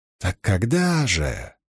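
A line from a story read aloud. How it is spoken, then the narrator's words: Whisper. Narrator (Russian): прошептал Льюстерин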